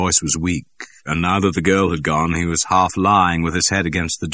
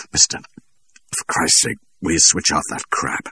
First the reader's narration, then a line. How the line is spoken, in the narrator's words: pleaded Ernie Cureo through his teeth